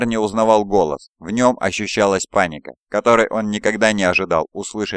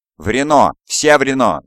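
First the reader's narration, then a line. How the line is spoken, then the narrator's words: Shouting. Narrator (Russian): закричал Кальд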